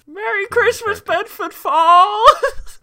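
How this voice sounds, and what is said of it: Imitates a film character's voice. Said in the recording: “your impression of...”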